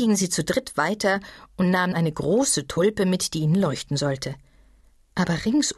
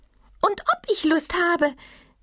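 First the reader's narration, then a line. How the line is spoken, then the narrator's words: Small animal calling. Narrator (German): rief das kleine Tier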